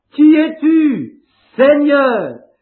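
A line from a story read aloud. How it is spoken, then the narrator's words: Exclaimed. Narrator (French): il s'écria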